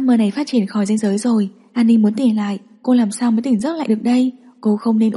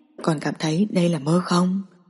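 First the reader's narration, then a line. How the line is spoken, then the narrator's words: Low, seductive voice. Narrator (Vietnamese): Giọng nói Bạch Tiến Vũ trầm lắng giống như đang đầu độc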